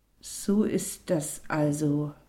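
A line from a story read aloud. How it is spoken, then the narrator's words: Child speaking slowly, bewildered. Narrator (German): sagte das Kind langsam und versuchte, das Unbegreifliche zu begreifen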